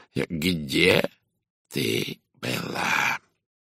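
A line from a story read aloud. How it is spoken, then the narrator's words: Quiet, hoarse, menacing. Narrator (Russian): Тихий хриплый голос звучал угрожающе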